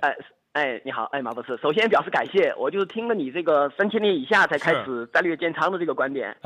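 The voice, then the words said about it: Hunan accent, not Northeastern. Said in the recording (Chinese): “口音还还湖南人 ... 您就湖南人吧？您这口音哪有东北口音呢？”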